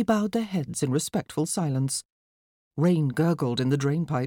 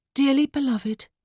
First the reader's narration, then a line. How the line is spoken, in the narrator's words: Anastasia said in her best funeral voice